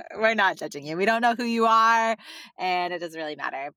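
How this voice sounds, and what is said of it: Valley Girl accent. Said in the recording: “the Valley Girl accent, I can't with that... is such a Valley Girl accent”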